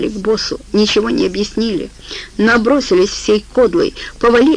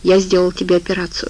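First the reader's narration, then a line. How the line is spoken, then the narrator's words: Calm. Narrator (Russian): также спокойно сказал бобер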